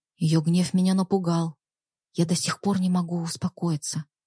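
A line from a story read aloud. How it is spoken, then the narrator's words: Whispered. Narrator (Russian): прошептала Екатерина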